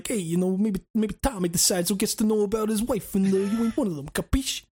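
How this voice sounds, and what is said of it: Put-on accent. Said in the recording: “I did a fucking accent ... such a fun accent”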